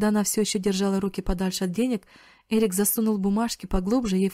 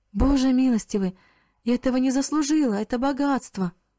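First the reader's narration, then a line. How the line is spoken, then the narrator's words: Astonished frightened exclamation. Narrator (Russian): она от удивления и испуга сплеснула руками и воскликнула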